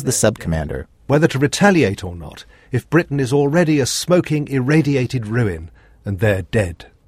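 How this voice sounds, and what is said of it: British accent. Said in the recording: “maybe it's better if you hear this in a British accent”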